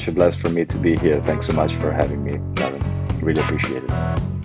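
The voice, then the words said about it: Italian accent, easy to listen to. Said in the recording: “an amazing Italian accent. That's so easy to listen to.”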